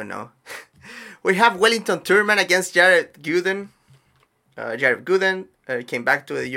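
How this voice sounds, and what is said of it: Usual voice. Nothing is said of it.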